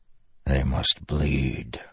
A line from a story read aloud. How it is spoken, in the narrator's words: he whispered